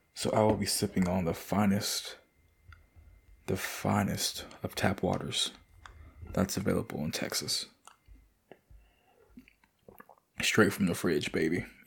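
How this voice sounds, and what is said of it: Hoarse, dry-throated voice. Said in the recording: “my voice sounds a little bit hoarse as fuck ... My throat's just fucking dry.”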